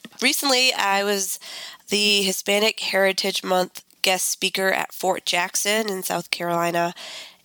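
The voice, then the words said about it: Congested voice. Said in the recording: “I am just recovering from a cold and I'm feeling pretty congested ... excuse my voice and if I have to clear my throat a bit”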